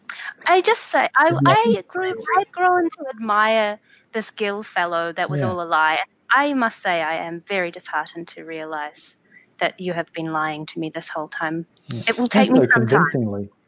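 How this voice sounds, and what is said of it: Put-on character accent. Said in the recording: “That accent was...”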